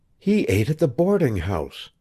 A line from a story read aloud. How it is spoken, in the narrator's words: whispered